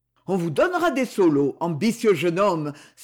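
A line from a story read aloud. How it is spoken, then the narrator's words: Delighted exclamation. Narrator (French): s'écria Amédée de la Lyre enchanté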